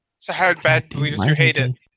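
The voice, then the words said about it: Whispering. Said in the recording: “Why do you keep whispering? ... I can't tell how loud I am.”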